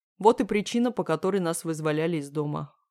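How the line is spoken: Snorting. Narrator (Russian): хмыкнул Леха

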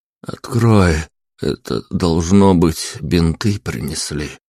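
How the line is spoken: Mumbling. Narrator (Russian): промямлил я

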